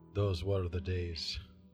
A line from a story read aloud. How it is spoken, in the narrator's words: muttered the Witcher